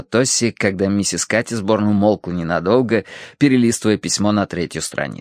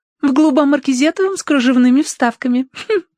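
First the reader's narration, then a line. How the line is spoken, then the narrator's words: Giggling. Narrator (Russian): ответила Роза, хихикнув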